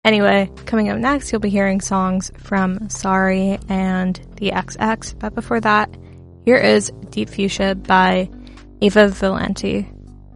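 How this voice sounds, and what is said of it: Strained, fading hoarse voice. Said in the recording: “Losing my voice.”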